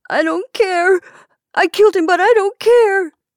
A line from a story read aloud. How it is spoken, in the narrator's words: he sobbed